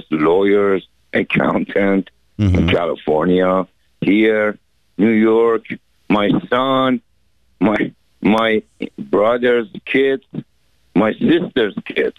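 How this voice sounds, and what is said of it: Foreign-accented English. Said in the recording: “my accent. You see what I'm saying? My accent always gives me problems.”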